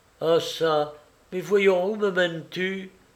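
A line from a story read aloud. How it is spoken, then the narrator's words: Sudden exclamation. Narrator (French): s'écria-t-elle tout à coup après un silence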